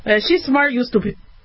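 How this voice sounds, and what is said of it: Imitating father's accented voice. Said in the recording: “my dad going, well, she's smart and you're stupid, with his accent.”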